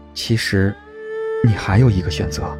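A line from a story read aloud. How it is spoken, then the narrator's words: Tender, sad, hesitant. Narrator (Chinese): 他的神色温柔又悲伤，半晌才道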